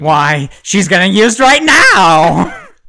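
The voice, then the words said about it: Stereotyped flamboyant gay voice. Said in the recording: “is that your gay impression? ... It's my impression of your teacher.”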